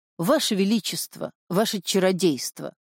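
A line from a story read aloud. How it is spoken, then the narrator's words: Witch's hoarse wheeze. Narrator (Russian): Ведьма … просипела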